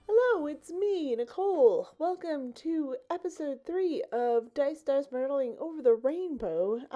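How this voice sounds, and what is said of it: Hoarse, strained voice. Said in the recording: “I apologize for my voice right now. I am a little under the weather ... as you can hear, my vocal cords are just fried. They're just destroyed.”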